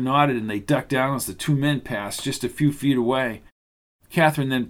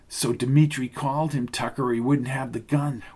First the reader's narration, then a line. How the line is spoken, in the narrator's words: whispered Kathryn into his ear